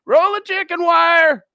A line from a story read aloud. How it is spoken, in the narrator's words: Boy yells back